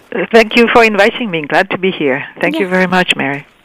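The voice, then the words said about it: French accent. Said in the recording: “Wait till you hear her wonderful French accent.”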